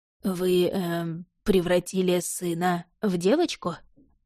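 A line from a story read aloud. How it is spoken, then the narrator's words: Forced out with effort. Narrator (Russian): Наконец сумел выдавить Фрэнк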